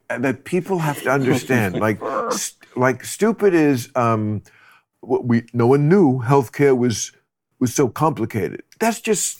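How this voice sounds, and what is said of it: Donald Trump impression. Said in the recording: “Was that your Trump impression? That was good. It was really good.”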